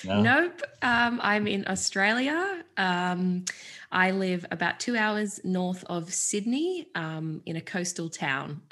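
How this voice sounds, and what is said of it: Australian accent. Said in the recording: “you have a different way of speaking than most of our guests ... my accent sounds very different to you all, because I'm halfway across the world”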